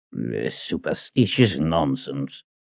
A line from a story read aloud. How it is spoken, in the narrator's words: he growled